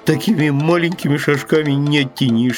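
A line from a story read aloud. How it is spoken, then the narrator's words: Plain. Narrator (Russian): сказал медвежонок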